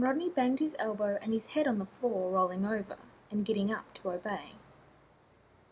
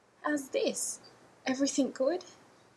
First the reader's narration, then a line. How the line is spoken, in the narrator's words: in a cracked, uneven voice